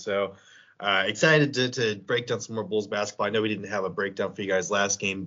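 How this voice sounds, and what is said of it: Crackly voice from a cold. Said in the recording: “My voice is still a little crackly ... this cold has been kicking my butt”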